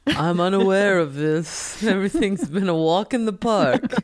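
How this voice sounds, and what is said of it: Spooky horror-narrator style voice. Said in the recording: “What was that accent? ... That sounds like the voice in the song Thriller. ... The graveyard.”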